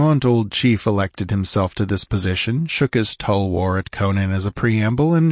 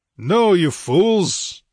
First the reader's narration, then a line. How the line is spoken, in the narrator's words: roared the exasperated Cimmerian